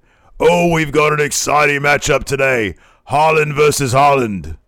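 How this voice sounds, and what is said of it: Imitated British wrestling commentator accent. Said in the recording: “in Wade Barrett's accent ... His British accent”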